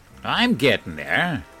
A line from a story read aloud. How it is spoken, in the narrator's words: Henry snorted